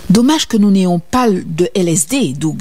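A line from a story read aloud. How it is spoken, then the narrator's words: Plain. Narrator (French): me dit-il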